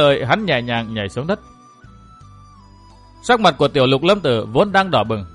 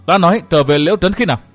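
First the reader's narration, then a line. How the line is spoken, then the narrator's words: Angry frightened shout. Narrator (Vietnamese): Tiểu Lục Lâm Tử vừa giận vừa sợ hét lên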